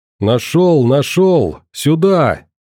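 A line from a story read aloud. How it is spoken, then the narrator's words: Booming male voice nearby. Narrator (Russian): Незнакомый мужской голос прогремел над самым ухом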